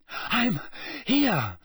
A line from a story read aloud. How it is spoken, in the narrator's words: Harry panted